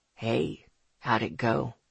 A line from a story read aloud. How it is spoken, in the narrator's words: he asked in his smoky, smooth voice